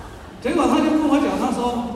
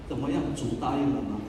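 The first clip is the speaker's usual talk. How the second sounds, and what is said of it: Quiet, hushed voice. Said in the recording (Chinese): “我就很小声问他”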